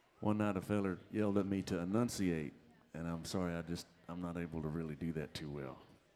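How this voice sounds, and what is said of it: Thick drawl accent. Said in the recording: “my drawl is so thick, I need to come with an interpreter”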